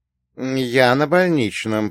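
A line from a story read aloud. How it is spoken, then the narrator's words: Through gritted teeth. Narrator (Russian): процедил я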